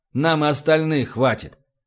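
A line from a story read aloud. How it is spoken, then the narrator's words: Angry mutter, satisfied undertone. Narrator (Russian): Зло буркнул Небогатов, но в голосе его явно ощущалось удовлетворение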